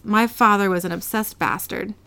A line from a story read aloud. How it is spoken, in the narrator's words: Real Dean yells